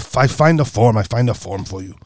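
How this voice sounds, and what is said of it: Put-on Asian accent. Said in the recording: “That was my best effort ... accent ... My ornamental accent”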